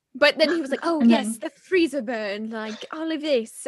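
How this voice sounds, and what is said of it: Put-on English accent. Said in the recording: “isn't my English accent just wonderful? ... Nailing it.”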